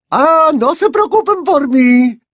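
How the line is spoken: Irritated shout, stout woman. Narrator (Spanish): gritó bastante irritada la señora gorda

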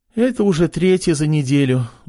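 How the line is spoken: Sigh. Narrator (Russian): вздохнула врачиха

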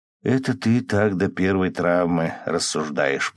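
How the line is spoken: Grumbling. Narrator (Russian): пробурчал Лева

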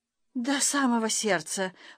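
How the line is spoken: Faint babbling. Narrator (Russian): пролепетала Норочка

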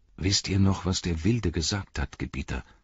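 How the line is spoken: Plain. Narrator (German): sagte ein anderer

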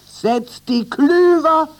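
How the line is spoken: Captain shouting. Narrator (German): schrie der Kapitän

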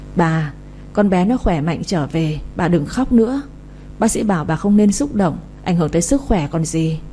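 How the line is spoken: Gentle reminder. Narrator (Vietnamese): Chị như thấy bà nội cứ khóc mãi như vậy thì không chịu được, khẽ nhắc

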